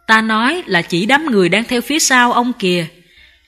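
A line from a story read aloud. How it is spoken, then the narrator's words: Master, smiling. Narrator (Vietnamese): Sư phụ mỉm cười nói tiếp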